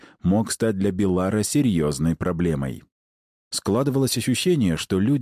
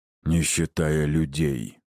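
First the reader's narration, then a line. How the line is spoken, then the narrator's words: Muffled, hollow. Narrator (Russian): глухо добавил генерал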